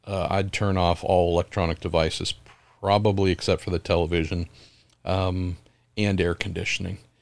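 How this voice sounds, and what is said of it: Rough, impaired-sounding voice. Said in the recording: “I don't know why my voice is so screwed, but I keep drinking things to try and help, and it doesn't really get a lot better.”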